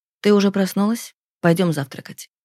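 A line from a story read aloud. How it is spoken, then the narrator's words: Caring, tender voice. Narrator (Russian): говорит он заботливым голосом, словно мы вчера поженились, а он мой новоиспеченный муж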